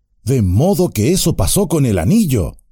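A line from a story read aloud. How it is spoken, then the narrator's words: Exclaiming. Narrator (Spanish): exclamó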